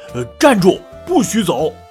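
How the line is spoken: Father shouting. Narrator (Chinese): 爸爸大喊起来

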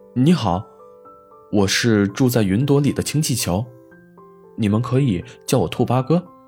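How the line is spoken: Cheerful balloon speaking. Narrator (Chinese): 兔八哥气球……笑着说

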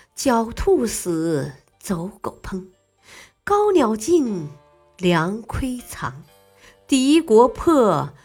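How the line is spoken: Deep sigh. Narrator (Chinese): 他深深的叹息

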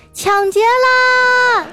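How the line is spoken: Little girl shouting. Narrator (Chinese): 这小萝莉立刻就大喊

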